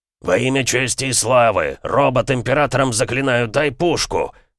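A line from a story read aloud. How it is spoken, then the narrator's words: Sudden roar. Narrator (Russian): вдруг взревел Эмик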